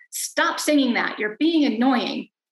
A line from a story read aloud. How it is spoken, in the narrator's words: she would suddenly shout